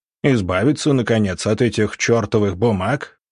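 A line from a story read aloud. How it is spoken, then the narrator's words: Scoffing snort. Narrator (Russian): начмет хмыкнул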